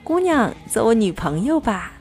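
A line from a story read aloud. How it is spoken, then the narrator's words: Loud shout. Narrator (Chinese): 我大声对他喊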